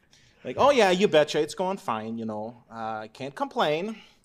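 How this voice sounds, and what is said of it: Put-on Minnesota Fargo accent. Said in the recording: “Midwest white guy tropes ... you're from Minnesota and then you remind me in these little moments ... the annoying Fargo accent”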